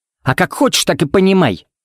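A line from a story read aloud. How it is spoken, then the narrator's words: Snorting. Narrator (Russian): фыркнула Пепси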